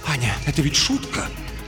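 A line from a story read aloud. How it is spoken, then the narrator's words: Whisper. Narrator (Russian): он говорит шепотом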